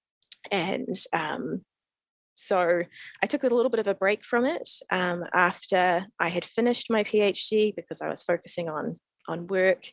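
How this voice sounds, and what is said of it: New Zealand accent. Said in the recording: “from your accent, obviously, you are from New Zealand ... Kiwi born and bred”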